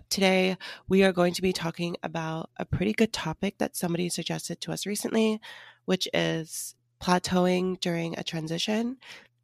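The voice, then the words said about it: Rough, hoarse voice. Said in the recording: “my voice is a little bit rough”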